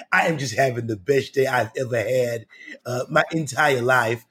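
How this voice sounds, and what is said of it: Carol Channing impression. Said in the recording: “I can do Carol Channing because she has a really unique and interesting voice.”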